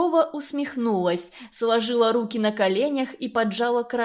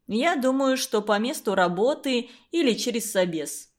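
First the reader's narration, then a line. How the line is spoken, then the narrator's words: Calm answer. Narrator (Russian): спокойно ответил директор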